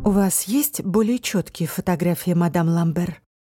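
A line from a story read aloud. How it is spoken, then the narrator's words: Calm, businesslike question. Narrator (Russian): спросила Алис, радуясь, что ее голос звучит спокойно и деловито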